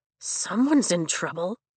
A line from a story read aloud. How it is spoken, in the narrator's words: Rhiannon whispers